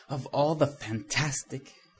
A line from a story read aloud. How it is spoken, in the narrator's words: gasped an indignant female voice